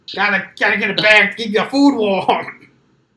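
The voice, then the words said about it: Screaming in a Brooklyn accent. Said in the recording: “Just screaming at me in a Brooklyn accent.”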